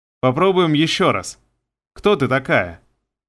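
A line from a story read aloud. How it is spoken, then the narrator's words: Snide question. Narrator (Russian): Я же ехидно спросил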